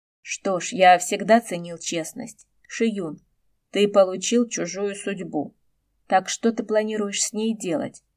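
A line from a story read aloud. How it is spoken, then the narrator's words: Plain. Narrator (Russian): сказал Гошен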